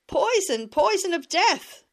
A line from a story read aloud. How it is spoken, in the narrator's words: Simeon would shout, and spit mightily